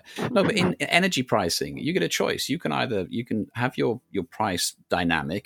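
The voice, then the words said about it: British accent. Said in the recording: “I'm in the sunny UK ... they probably knew that by my accent ... I wasn't speaking from the US”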